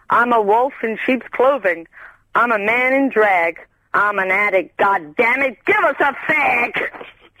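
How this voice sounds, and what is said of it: American accent. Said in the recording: “Where's your accent from? ... It's from the US of A. ... Oh, America.”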